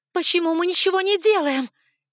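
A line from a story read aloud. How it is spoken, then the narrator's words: Desperate shout. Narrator (Russian): Не выдержав, закричала я в отчаянии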